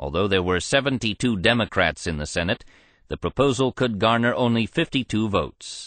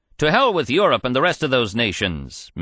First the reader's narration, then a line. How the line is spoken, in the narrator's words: Minnesota's Thomas Shaw cried